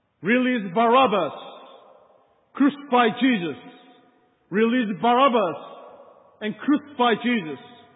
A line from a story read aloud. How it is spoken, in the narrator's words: the crowd is shouting